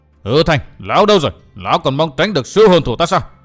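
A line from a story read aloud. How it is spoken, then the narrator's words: Relentless yelling. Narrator (Vietnamese): Kha Nhân vẫn không ngừng gào lên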